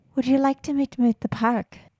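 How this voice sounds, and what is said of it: Put-on Irish accent. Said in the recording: “I'm trying to use my Irish accent. ... That was great. ... Irish accents are kind of hot.”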